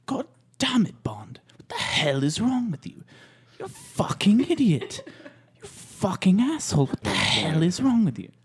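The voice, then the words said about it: Imitates another person's voice. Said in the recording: “my impression of Dame Judi Dench”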